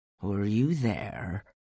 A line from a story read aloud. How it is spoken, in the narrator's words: He asked quietly